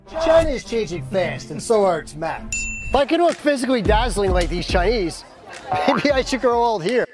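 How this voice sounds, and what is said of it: Pittsburgh accent mixed with New Jersey. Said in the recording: “that sounds like a Pittsburgh accent if I ever did hear one. But also kind of mixed with New Jersey... it's a very, very obscure accent”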